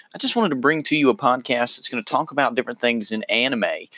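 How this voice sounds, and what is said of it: Southern American accent. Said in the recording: “pardon my southern accent.”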